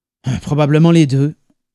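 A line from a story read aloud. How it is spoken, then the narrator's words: Grumbling. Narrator (French): grommela Adrian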